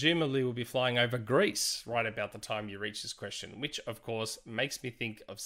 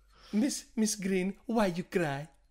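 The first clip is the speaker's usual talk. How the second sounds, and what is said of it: Put-on Greek accent. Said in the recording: “I love how she says that Greek accent. It's so good.”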